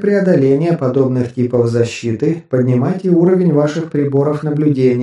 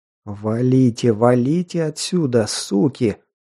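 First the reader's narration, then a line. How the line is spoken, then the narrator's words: Hateful exhale. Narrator (Russian): вслух с ненавистью выдохнул я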